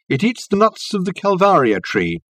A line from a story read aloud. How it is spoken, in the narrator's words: called out Reg to Richard